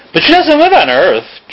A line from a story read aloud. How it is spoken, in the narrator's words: Drew exclaimed